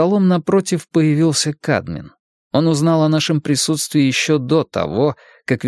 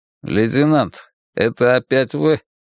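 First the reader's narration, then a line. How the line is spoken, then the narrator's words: Displeased grumble. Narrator (Russian): недовольно пробурчал Кадмин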